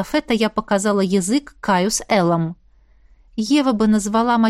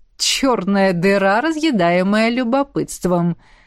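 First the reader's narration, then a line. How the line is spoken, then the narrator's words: Mocking drawl. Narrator (Russian): протянул гадский гад насмешливо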